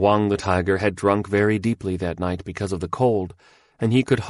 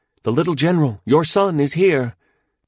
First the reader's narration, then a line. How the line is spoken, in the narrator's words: one cried gladly